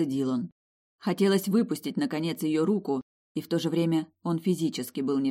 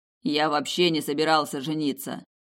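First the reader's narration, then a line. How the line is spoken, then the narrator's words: Grumbling mutter. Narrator (Russian): пробурчал он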